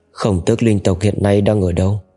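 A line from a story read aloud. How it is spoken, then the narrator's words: Plain. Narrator (Vietnamese): Cố Mạch hỏi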